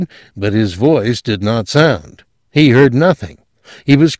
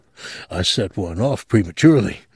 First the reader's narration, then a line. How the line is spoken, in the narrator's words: he mumbled